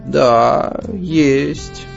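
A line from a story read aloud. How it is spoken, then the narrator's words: Sighing agreement, old woman. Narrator (Russian): согласилась, вздохнув, бабушка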